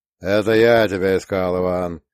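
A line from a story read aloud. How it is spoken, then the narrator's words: Grumbling, slight accent. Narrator (Russian): пробурчал Тахмасиф Гасанович, подпуская в речь легкий акцент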